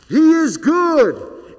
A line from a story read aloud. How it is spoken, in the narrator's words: the thousands of priests would yell